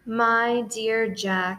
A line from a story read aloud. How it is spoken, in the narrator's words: said Santa